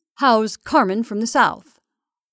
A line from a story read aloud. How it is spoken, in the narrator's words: he inquired, blinking cheerfully